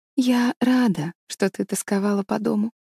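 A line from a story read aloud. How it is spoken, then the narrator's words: Quiet. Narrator (Russian): тихо сказала она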